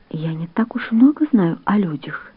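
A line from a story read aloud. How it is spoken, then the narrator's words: Quiet. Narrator (Russian): тихо сказала Майя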